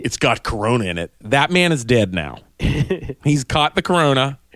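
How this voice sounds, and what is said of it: Put-on Pittsburgh accent. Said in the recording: “This is a Pittsburgh accent.”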